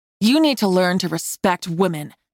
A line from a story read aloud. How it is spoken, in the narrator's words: I snarled